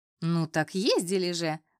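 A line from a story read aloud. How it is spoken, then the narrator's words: Mocking. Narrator (Russian): насмешливо произнесла она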